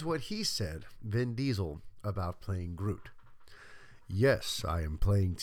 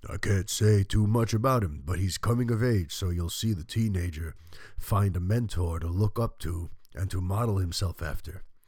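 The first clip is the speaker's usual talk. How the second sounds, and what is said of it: Deep, poor Vin Diesel impression. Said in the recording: “in a very, like, deep Vin Diesel voice ... This is a terrible Vin Diesel impression. ... Why do I sound like Columbo?”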